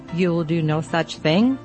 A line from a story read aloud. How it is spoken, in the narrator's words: she said